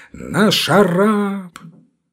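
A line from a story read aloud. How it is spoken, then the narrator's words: Frenzied shout, big man. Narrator (Russian): какой-то огромный рыжий малый закричал неистовым голосом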